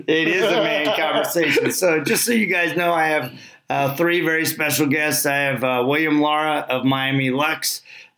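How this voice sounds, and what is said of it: Raw, hoarse, deeper-sounding voice. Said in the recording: “my voice is very, very raw from being at the SEMA show in Las Vegas... I actually sound like a man for the first time”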